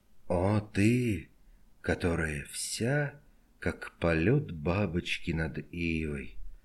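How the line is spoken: Nearly inaudible mutter. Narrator (Russian): Пробормотал он почти неслышно

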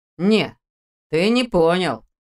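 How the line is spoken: Snort. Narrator (Russian): хмыкнул Ваня

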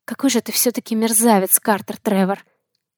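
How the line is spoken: Quiet. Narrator (Russian): Сказала тихо

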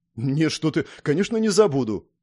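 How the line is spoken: Quick tense reply. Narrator (Russian): тут же ответил я напряженным голосом

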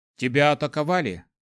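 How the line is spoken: Calm question. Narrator (Russian): спокойно спросил Кай

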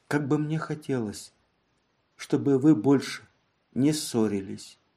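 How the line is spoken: Whispered. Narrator (Russian): прошептала

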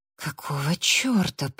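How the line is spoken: Whisper. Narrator (Russian): прошептала Эбби

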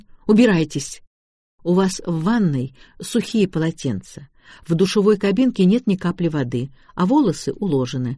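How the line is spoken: Calm. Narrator (Russian): спокойно продолжал я

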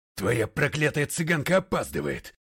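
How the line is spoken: Barked. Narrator (Russian): рявкнул полковник Гренвиль

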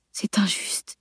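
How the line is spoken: Murmured. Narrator (French): murmura-t-il

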